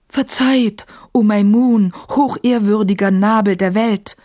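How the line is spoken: Calling out, face down. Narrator (German): rief er, ohne die Nase von den Fliesen zu heben

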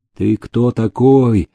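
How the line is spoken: Muffled dying voice. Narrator (Russian): глухо спросил умирающий

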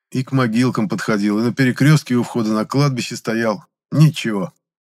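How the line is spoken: Sighing. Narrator (Russian): вздохнул я

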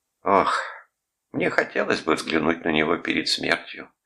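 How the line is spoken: Sad. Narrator (Russian): печально сказала она

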